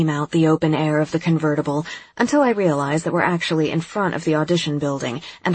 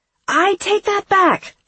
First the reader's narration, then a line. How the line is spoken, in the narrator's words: I shout